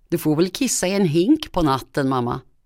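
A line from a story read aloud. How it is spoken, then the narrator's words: Giggling, then crying. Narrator (Swedish): fnissade och började sen gråta igen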